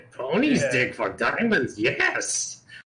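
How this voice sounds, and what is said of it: Raspy Gollum-like creature voice. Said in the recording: “They got that kind of raspy ... Gollum. ... it pretty much is going to sound like Gollum”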